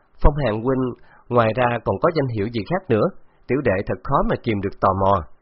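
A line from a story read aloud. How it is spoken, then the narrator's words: Smiling question. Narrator (Vietnamese): Từ Tử Lăng mỉm cười hỏi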